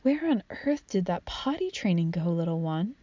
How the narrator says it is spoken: whisper

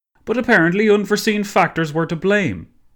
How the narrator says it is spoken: seemed to be shouting now

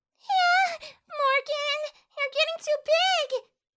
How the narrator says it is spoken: Felicia cried out

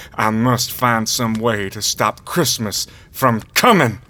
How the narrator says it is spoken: he growled

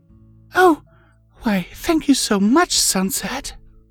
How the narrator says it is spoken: gasped and replied

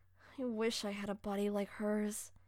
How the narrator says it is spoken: I mumbled in envy

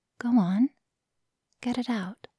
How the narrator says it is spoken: said soothingly

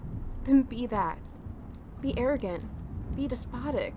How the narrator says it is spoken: I cried in utter exclamation

